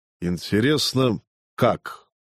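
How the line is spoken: Dry question. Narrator (Russian): сухо спросил тиберянец

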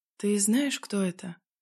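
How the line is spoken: Quiet question. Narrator (Russian): тихо спросила я Женьку

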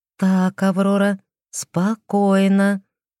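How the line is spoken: Slow. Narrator (Russian): медленно произнесла я

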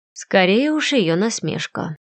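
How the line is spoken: Muttered under breath. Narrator (Russian): пробормотала себе под нос

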